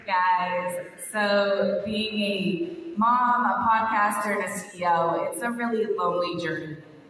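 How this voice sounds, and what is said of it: Hoarse, strained, fading voice. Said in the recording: “I'm losing my voice”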